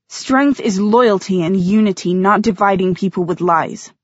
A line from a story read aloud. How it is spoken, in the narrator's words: Maya snapped